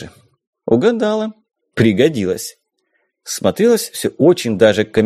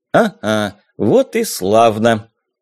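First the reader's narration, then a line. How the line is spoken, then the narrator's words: Happy snort. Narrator (Russian): радостно хмыкнул Азов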